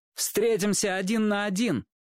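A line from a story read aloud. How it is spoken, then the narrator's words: Loud. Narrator (Russian): Чик громко сказал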